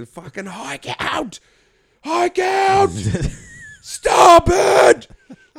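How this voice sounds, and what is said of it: Yelling commands. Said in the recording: “I'm yelling commands”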